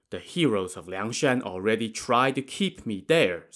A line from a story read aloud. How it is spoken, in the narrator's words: Song Jiang said